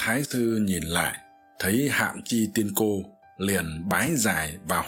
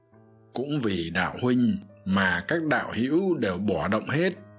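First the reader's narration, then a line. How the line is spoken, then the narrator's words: Smiling. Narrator (Vietnamese): Hạm Chi tiên cô mỉm cười nói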